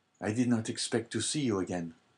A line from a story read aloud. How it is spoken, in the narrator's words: said he feebly to Dante